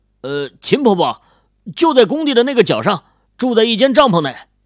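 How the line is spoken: Calling out. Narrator (Chinese): 秦羽冲着张华喊道

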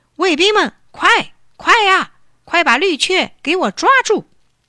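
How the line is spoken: Loud command. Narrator (Chinese): 他大声下命令

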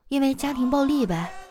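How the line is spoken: Sighing. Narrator (Chinese): 他叹了一口气啊，说

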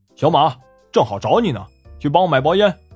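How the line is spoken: Calling out. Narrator (Chinese): 有人喊

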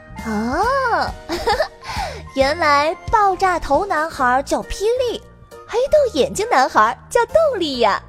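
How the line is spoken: Thoughtful, smiling. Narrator (Chinese): 糖糖若有所思的笑着说

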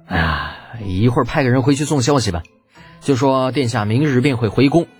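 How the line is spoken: Helpless sigh. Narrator (Chinese): 李浩无奈的叹了口气

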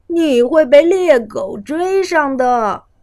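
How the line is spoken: Brothers teasing. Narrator (Chinese): 哥哥们取笑他说

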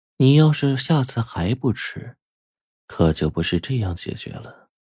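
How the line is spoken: Cold, eerie, chilling voice. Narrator (Chinese): 女人此刻冷悠悠的声音像是飘在空中一样，发出令人震颤的声音

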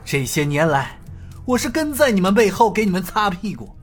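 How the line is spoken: Sighing. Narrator (Chinese): 太子叹了口气，又接着说道

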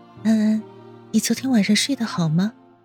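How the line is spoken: Gentle. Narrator (Chinese): 温之夏温柔道

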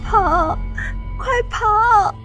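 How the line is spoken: Tearful voice. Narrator (Chinese): 一个带着哭腔的声音

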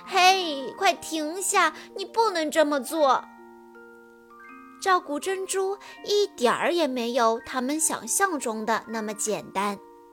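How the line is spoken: Crying. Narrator (Chinese): 安博哭着说

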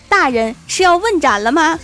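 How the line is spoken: Loud. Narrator (Chinese): 我哥对我爸大声地说

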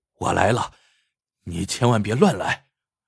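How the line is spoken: Breathless. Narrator (Chinese): 气喘吁吁的对叶红说

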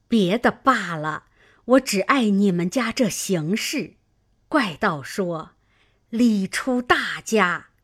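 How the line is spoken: Sighing, old woman. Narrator (Chinese): 刘姥姥叹道

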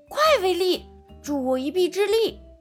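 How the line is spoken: Shouting. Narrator (Chinese): 卡尔大喊

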